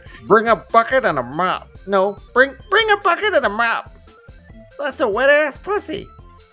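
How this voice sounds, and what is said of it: Goblin-like imitation of another person's voice. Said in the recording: “I gotta do a Ben Shapiro voice. ... It's gotta be more goblin-y. ... You sound like a baby Giuliani a little too”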